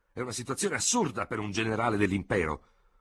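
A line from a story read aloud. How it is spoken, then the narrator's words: Shout of dismayed conviction. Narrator (Italian): gridò Ferraud, con accenti di profonda e sbigottita convinzione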